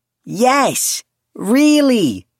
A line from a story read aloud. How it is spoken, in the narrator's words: Julian sucked in a deep breath and sang at the top of his lungs